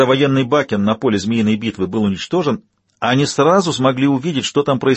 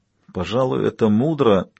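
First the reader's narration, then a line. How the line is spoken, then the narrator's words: Thoughtful mumble. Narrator (Russian): пробормотала доктор Уорнер, погрузившись в раздумья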